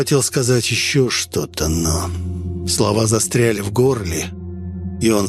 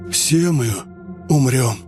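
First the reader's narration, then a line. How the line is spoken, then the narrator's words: Breathed out. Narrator (Russian): выдохнул кроль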